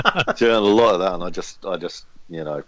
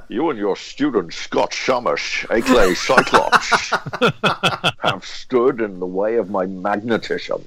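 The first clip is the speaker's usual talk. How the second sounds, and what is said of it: Sean Connery impression, Scottish accent. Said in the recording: “made fun of Sean Connery's accent ... You do it well. ... That's a pretty good version”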